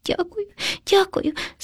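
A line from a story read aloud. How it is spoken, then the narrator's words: Frightened hamster sobbing. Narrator (Ukrainian): схлипнув наляканий хом'ячок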